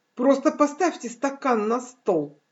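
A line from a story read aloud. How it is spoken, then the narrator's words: Cheerful. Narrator (Russian): весело сказал один студент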